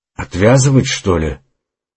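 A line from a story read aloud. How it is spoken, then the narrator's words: Muttering to himself. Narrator (Russian): пробормотал Остин, похоже, обращаясь к самому себе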